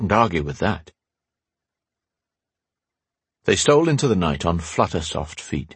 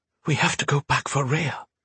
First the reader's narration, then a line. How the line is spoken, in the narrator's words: Gaia whispered in his ear